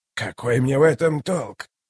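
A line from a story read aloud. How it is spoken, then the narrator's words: Quiet, even question. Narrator (Russian): Тихо, ровно спросил он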